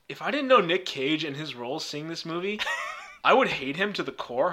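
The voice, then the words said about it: Nicolas Cage impression accent. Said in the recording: “Are you reading that as Nicolas Cage? ... The accent's a giveaway.”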